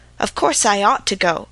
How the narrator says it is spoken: Peter had told me mournfully

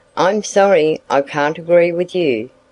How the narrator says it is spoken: Sandy replied

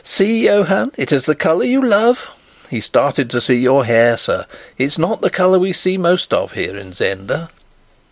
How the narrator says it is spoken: the merry girl began to laugh as she called

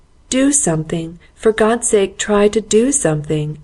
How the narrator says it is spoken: he wailed piteously

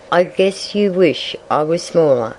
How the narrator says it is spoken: said Fatty Coon

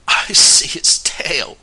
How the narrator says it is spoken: cried Fred with a shiver

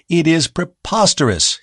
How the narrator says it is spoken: he cried

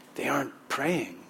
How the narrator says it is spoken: someone behind Aidan whispered

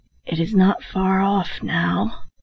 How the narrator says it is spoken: His voice sank to a whisper as he added

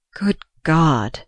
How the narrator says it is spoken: he groaned again

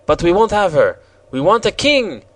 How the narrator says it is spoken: exclaimed the Jacques Rose

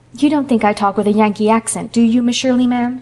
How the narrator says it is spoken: she demanded anxiously

